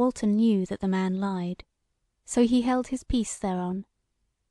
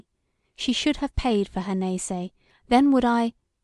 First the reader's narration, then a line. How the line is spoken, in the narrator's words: he broke off, and said quietly, yet somewhat doggedly